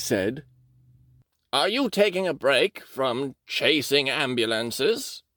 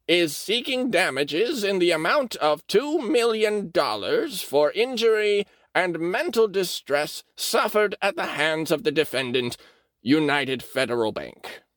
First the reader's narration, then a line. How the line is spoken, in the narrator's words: he said in a creaky tenor voice